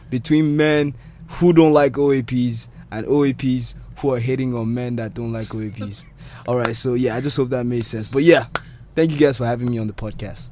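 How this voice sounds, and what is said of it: Polished radio presenter accent. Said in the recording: “this is my radio accent.”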